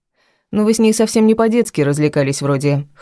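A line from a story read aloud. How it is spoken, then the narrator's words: Snort. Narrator (Russian): хмыкнул Костик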